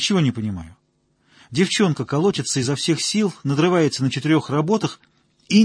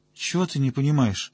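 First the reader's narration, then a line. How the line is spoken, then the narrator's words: Sleepy, drowsy reply. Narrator (Russian): сонно отозвался Коротков, который уже успел задремать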